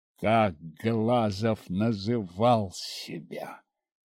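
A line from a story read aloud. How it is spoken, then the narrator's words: Growled question. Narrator (Russian): Не спросил, прорычал я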